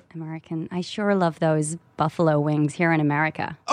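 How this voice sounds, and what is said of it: English speaker doing American accent. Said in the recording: “How's your American accent? ... LA accent. ... Yeah, that's good. ... Oh, you're good. ... Yeah, that works.”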